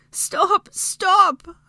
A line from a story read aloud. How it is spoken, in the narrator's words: Hermione begged as she was jostled by his movements against the hard, dusty stone